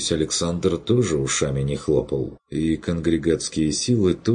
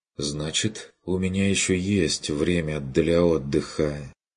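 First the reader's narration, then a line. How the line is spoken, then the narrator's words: Sighing. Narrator (Russian): вздохнула Адельхайда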